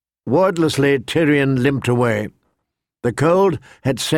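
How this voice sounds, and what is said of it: Usual voice. Nothing is said of it.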